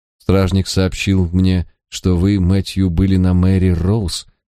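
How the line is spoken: Gracious tone. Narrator (Russian): благосклонным тоном спросила она

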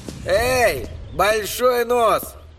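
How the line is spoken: Shouted. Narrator (Russian): крикнул Эдди

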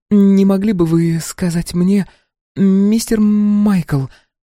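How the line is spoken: Halting, near stammering. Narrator (Russian): Слова давались с трудом, она почти заикалась

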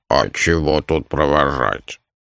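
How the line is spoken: Grumbling. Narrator (Russian): проворчал Дримаронда

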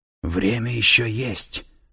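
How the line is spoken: Whisper. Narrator (Russian): прошептал татуированный

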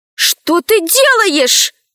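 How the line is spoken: Exclaiming. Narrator (Russian): воскликнула Алиса

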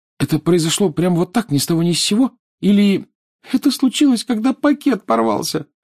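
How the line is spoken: Sobbing. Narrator (Russian): всхлипнула Лиана

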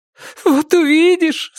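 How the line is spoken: Through tears. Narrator (Russian): сказала она сквозь слезы

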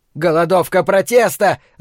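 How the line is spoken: Yelling. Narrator (Russian): завопил он

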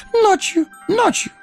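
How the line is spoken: Eager babbling. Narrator (Russian): С готовностью залепетал Горлум

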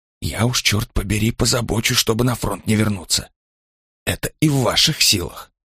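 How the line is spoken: Low muttering. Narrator (Russian): забормотал Ланкау, понизив голос

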